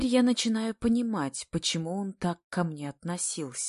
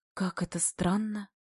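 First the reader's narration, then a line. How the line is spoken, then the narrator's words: Muttered under breath. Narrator (Russian): Бормочу себе под нос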